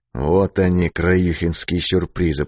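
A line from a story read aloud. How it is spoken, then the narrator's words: Mutter. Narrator (Russian): пробормотал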